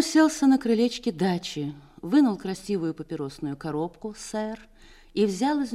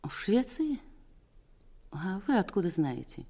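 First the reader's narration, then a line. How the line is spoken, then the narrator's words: Weak, shaken question. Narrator (Russian): оправилась от потрясения и даже спросила слабым голосом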